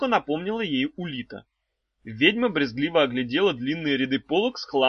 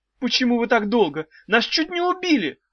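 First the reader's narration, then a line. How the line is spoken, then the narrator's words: Exclaiming. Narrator (Russian): воскликнула Ната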